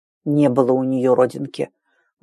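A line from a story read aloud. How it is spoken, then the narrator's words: Embarrassed mutter. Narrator (Russian): буркнул покрасневший Рэм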